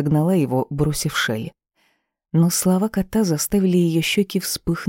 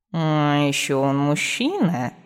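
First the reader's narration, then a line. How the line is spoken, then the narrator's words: Instructive purr. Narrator (Russian): наставительно мурлыкнул фамильяр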